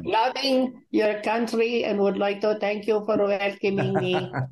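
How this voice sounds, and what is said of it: Put-on foreign accent. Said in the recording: “with a name like Smirak, I'm expecting that kind of an accent”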